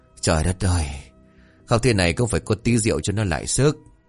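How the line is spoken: Muttering. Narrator (Vietnamese): ông miệng lẩm bẩm

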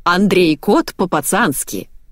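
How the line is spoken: Solemn announcement. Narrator (Russian): торжественно объявила Марго

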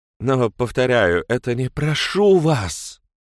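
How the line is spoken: Furious whispered plea. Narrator (Russian): яростным шепотом попросила Бренда

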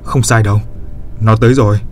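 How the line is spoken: Stern reply. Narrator (Vietnamese): Trác Mộc Cường Ba nghiêm giọng đáp

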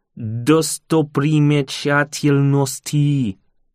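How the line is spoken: Slow reading aloud. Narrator (Russian): я медленно прочитал вслух

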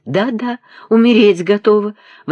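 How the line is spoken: Blushing exclamation. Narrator (Russian): воскликнула она, и ее лицо снова запылало румянцем

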